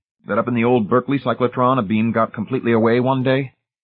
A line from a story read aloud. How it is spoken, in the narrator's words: Hamilton said harshly